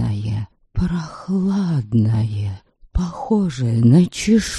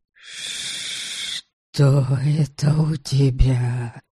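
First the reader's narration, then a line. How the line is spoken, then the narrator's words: Annoyed strange hiss. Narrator (Russian): Прошипел из темноты досадливый, странно изменившийся голос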